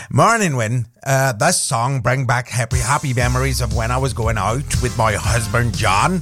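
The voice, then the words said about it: Put-on Northern Irish accent. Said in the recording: “Now, I did a Scottish accent yesterday. Today, it's Northern Ireland.”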